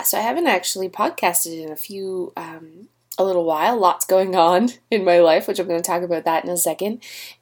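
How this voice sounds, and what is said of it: Congested, stuffy-nosed voice. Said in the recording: “excuse my voice. I have a cold ... my horrible stuffed nose”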